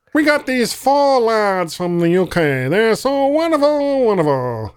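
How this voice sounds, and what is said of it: Imitates another person's voice, poorly. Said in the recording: “that is like a terrible Ed Sullivan impersonation.”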